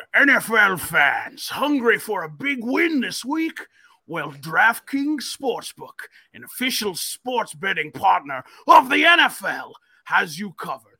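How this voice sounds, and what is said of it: Silly put-on reading voice. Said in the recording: “I'm going to read this in a silly voice.”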